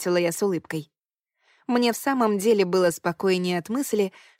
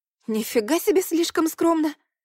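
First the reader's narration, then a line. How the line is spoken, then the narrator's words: Exclamation. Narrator (Russian): воскликнула я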